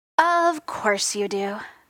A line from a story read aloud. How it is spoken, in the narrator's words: Tony sighed